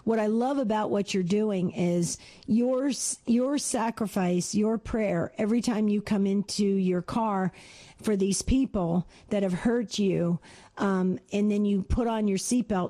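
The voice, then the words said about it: Strained, tired voice. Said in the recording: “my voice is, as you can hear, is straining today.”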